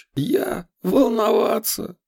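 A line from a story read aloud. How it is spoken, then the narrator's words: Shrill laughter. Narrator (Russian): Разуваев визгливо рассмеялся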